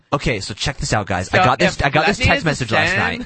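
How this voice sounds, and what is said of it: Teenage girl voice. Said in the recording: “accent of a teenage girl who's talking to her friends”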